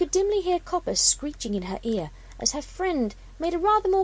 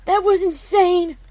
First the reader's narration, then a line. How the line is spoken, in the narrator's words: Copper cried